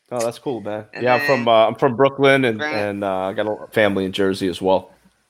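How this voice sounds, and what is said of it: Noticeable Brooklyn accent. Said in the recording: “I know I can hear the Brooklyn accent... It's very noticeable. It's like, bam, punches you in the throat.”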